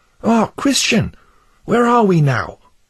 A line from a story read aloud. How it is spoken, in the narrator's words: Then Pliable cried out